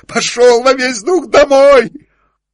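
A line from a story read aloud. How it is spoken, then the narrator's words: Shouting in strange voice. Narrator (Russian): закричал кучеру не своим голосом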